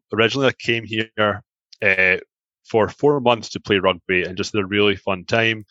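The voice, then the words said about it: Scottish accent. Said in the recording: “my accent here. I'm from Scotland.”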